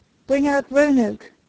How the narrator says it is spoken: the trooper cried aloud

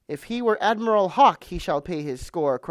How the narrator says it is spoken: cried Silver

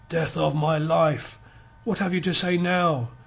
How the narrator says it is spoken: he cried, his voice husky

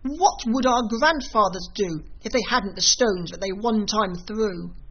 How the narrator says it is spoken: the Glugs cried

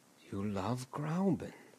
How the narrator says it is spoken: went on once or twice dreamily

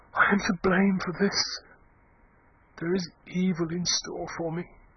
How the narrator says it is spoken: she said huskily

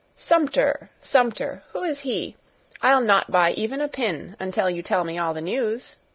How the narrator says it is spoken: she continued, laughing

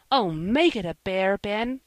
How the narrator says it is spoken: cried Joel, terribly disappointed

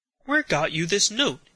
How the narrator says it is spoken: exclaimed the youth

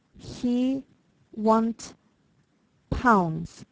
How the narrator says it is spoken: one said very slowly

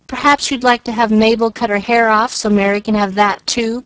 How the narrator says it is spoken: cried Susie, with whom hair was a tender point

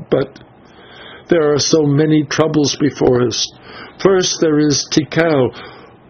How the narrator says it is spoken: she answered with a sob

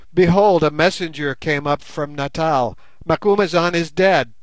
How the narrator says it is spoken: cried he

